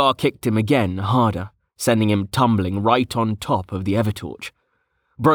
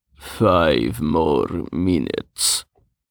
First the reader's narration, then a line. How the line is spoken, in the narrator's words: he mumbled